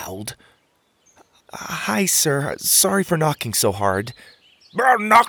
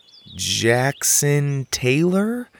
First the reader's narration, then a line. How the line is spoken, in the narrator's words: I said slowly